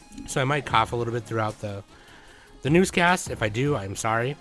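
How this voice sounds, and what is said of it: Hoarse voice. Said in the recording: “My voice even now is still kind of hoarse.”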